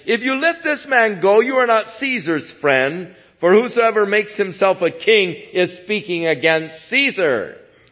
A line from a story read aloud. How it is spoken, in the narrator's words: the Jews cried out, saying